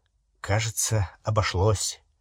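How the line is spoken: Muttered. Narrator (Russian): пробормотал Гарри

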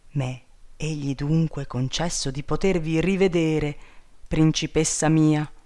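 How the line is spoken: Exclaiming. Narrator (Italian): esclamò

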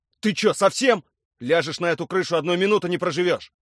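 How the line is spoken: Yelling. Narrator (Russian): Орал он на меня

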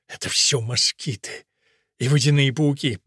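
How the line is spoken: Moaning. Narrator (Russian): простонал Фуси

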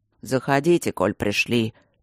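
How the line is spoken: Grumbling from the right. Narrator (Russian): проворчал откуда-то справа Алмаз

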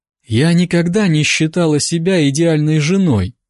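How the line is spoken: Sigh. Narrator (Russian): вздохнула

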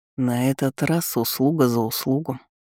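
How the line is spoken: Quiet statement. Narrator (Russian): негромко заявил

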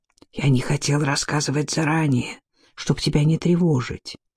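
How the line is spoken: Whispered. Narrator (Russian): прошептал прорицатель

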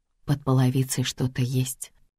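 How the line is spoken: Entranced whisper. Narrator (Russian): прошептала я, загипнотизированная

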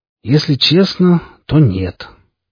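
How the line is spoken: Old man's sighing speech. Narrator (Russian): по-стариковски вздохнув, произнес Воронин

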